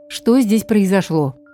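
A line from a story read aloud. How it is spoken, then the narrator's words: Menacing mother asking. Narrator (Russian): грозно спросила мама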